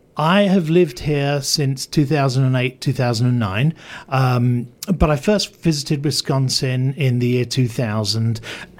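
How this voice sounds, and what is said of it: English accent. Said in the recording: “I am an Englishman, as you can probably tell by my voice... my accent is pretty much intact”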